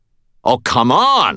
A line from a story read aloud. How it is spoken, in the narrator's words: I shouted